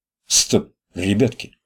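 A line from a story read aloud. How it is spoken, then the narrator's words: Whisper. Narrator (Russian): шепнул Витек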